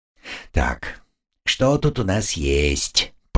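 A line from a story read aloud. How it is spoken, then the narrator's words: Muttering. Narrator (Russian): пробормотал он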